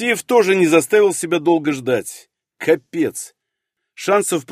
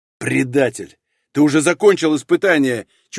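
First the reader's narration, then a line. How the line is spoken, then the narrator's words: Nearly growling. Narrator (Russian): чуть ли не прорычал Старостин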